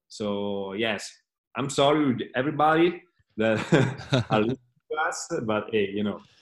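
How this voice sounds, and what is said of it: Non-native English accent. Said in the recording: “It's not that easy for me to speak in English. ... I'm sure a lot of people love the accent”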